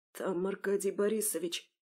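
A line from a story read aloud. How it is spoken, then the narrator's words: Whisper. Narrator (Russian): прошептал Антон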